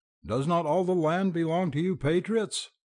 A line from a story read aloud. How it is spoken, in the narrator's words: the voice on the other side of the door screamed on